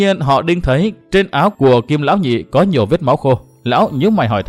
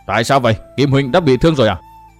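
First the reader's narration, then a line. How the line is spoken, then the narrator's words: Deep, cold yet gentle. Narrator (Vietnamese): Giọng nói của Diệm Sơn vừa trầm trầm vừa lạnh lùng, nghe qua dường như có ý lạnh nhạt, mặc dù đó là lời ôn tồn hỏi han săn sóc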